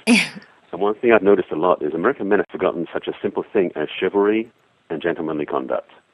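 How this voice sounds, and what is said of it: English accent. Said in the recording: “you may have heard in my accent that I'm actually English originally, been here many years”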